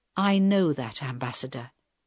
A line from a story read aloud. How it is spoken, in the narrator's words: Helen answered quietly